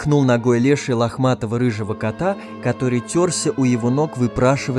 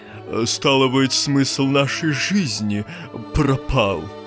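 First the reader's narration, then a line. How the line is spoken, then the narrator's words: Sad sigh. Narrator (Russian): грустно выдохнул Водяной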